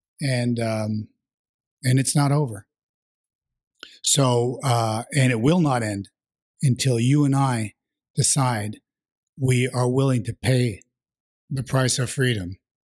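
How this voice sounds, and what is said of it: Slightly hoarse voice. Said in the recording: “my voice is a little hoarse today”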